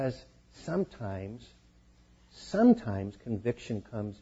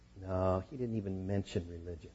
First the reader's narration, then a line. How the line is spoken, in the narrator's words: The pro sighed and said with embarrassment